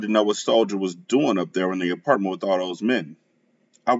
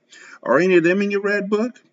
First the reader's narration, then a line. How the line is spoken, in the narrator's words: She laughed